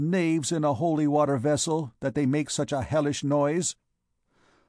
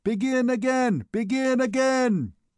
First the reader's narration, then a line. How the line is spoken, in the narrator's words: Gringoire had multiplied himself, and only shouted the more vigorously